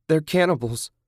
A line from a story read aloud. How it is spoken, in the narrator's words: Julie exclaimed